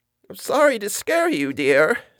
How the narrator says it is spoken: said a quavering voice, old lady

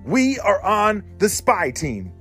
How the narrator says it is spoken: shouted Charlotte

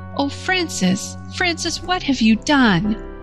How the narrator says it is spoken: rending sobs cut the words short

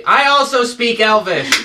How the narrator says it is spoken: In Elvish, say loudly

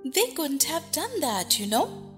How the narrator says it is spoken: Alice gently remarked

